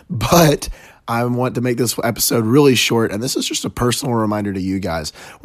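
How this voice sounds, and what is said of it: Hoarse, worn-out voice. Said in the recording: “my voice is even more shot than yesterday”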